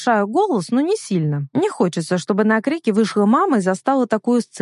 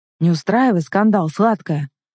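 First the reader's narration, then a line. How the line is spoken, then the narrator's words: Calm rebuke. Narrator (Russian): Спокойно одергивает меня Марк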